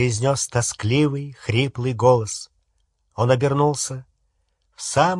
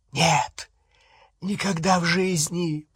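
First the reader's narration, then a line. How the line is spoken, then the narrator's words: Whispered. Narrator (Russian): прошептал Малфой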